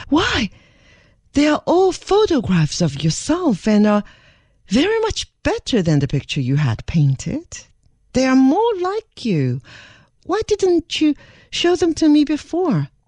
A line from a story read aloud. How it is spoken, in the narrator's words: she exclaimed in much surprise